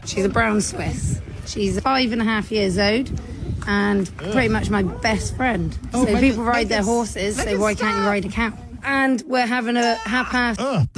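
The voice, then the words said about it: British accent. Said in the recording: “her disgusting British accent ... British ... The accent, no ... British voices it's like nails on a chalkboard”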